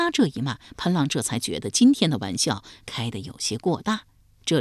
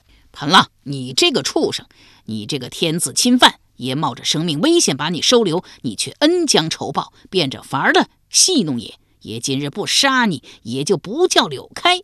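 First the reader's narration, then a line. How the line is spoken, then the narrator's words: Loud cursing. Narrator (Chinese): 柳开高声大骂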